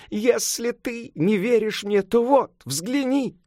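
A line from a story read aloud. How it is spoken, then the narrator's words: Loud sobbing exclamation. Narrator (Russian): Сюаньцзан, громко рыдая, воскликнул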